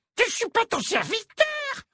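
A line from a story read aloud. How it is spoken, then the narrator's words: Squeaking. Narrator (French): couina-t-il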